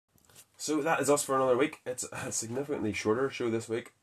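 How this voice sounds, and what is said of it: Sick, under-the-weather voice. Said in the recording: “I'm a little bit under the weather, as you can probably hear in my voice... my throat dries out”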